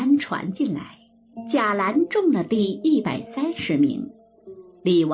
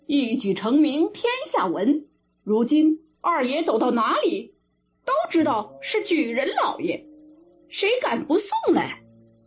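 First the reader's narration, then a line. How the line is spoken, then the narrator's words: Many voices agreeing. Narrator (Chinese): 大家都说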